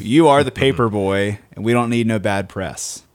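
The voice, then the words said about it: Put-on southern accent. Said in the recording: “he kind of said that with a southern accent.”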